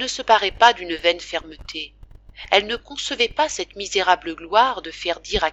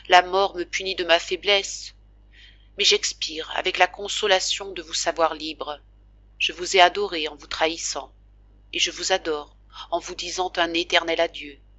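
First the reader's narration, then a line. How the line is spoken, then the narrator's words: Fading voice. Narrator (French): dit-elle d'une voix tombante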